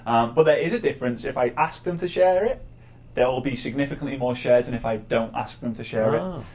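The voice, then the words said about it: Speaks with a noticeable accent. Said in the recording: “I thought it was the accent. Because I think that's a totally unfair advantage. ... It's put on. I'm actually from... No, I'm not really. ... I thought it was part accent”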